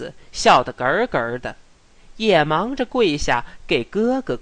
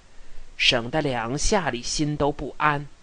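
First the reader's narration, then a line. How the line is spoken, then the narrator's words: Low voice. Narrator (Chinese): 瑞轩低声地说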